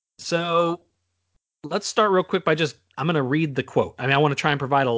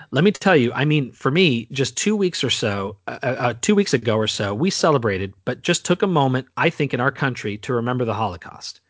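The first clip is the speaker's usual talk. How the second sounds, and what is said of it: Impression of Rashida Tlaib. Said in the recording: “my best Rashida Tlaib impression.”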